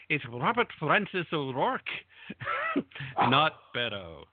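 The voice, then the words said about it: Put-on Irish accent. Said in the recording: “I'll usually put a little Irish twist on the accent.”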